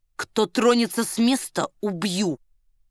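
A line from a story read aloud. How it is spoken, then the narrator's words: Quiet warning. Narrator (Russian): негромко предупредил он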